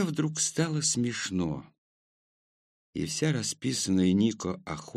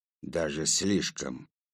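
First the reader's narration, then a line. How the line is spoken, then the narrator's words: Old man, through teeth. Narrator (Russian): старик процедил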